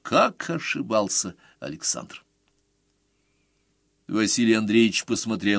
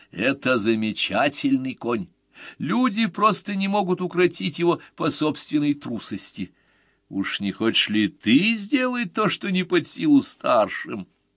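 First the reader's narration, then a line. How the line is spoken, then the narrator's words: Exclaiming. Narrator (Russian): воскликнул отец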